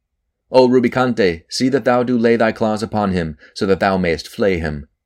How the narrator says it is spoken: cried altogether the accursed ones

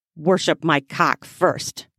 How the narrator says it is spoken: he hissed

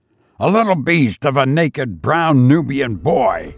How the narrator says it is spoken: spluttered Egbert

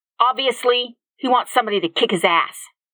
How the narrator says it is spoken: Jackson's thoughts said angrily

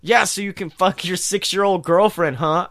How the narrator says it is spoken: I shouted sarcastically

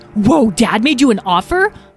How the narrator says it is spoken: Lyle exclaimed

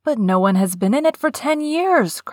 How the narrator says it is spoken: cried Colin

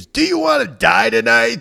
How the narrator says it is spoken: someone screams

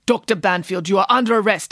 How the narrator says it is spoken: spat the man

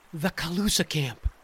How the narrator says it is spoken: whispered Ethan

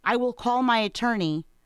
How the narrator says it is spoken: you shouted

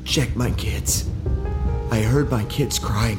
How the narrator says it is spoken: the man whispered

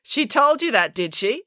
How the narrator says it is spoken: asked sarcastically

